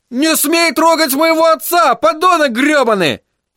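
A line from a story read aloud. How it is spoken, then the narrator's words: Yelling. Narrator (Russian): орал Тедди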